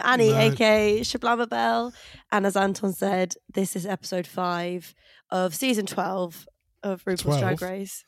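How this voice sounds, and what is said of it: Voice affected by a cold. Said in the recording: “if you can hear from my voice, I'm very sorry. I'm not very well. I've got a bit of a cold.”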